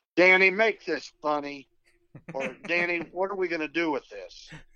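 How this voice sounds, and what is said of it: Imitates another person's voice. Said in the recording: “You do a great impression.”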